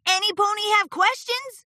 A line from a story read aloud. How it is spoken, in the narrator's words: Rainbow Dash called out